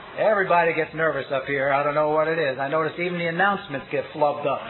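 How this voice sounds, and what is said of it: Fast speech, New York accent. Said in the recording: “I come from New York. I want to apologize for my accent and the rapidity with which I speak”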